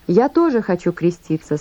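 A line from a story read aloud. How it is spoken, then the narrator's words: Plain. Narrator (Russian): сказал Иисус Иоанну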